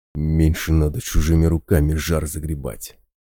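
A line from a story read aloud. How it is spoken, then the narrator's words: Angry whisper, bear. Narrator (Russian): зло прошептал медведь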